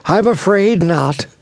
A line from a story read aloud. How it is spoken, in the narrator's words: sighed heavily